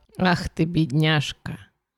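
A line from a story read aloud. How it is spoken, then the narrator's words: Mother's mumble. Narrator (Russian): Мать пробормотала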